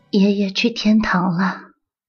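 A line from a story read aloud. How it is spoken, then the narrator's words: Mother speaking softly. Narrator (Chinese): 妈妈……轻声说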